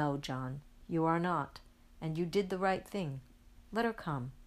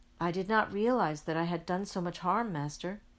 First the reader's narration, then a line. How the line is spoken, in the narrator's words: says John very sadly